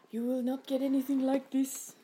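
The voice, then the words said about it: Poorly done put-on accent. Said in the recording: “That was a rubbish accent”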